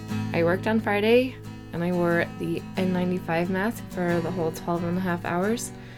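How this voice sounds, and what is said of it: Hoarse, partly lost voice. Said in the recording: “my voice sounds a little funny? It does sound funny... I lost my voice and it's slowly coming back. But if it sounds funny”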